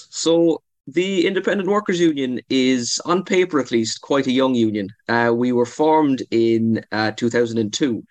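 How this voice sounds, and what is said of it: Irish Cork accent. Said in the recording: “The headquarters is based in Cork, and I'm sure your accent might give that away a little bit. So I'm loving the Munster representation”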